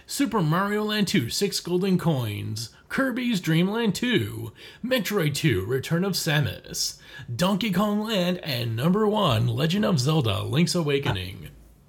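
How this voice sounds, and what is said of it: Dramatic TV announcer voice. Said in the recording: “weird like TV show announcer voice ... you sounded like the that Trailers one, Honest Trailers voice”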